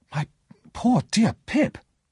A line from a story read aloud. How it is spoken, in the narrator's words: Herbert exclaimed